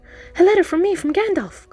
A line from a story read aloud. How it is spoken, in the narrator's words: cried